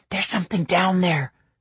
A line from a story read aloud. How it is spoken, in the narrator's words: she whispered in my ear